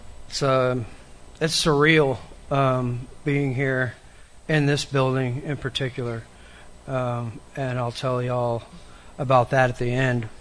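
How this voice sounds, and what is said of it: Strained, failing voice. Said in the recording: “My voice has all of a sudden decided to crap out on me.”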